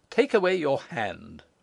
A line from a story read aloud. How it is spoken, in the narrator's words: she said bitterly